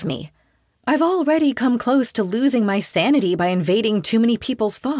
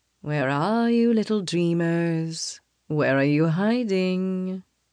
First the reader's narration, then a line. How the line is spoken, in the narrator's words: His voice is velvety smooth, but a sharp fury slides beneath it